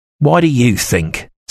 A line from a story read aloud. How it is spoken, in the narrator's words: Snowball answered harshly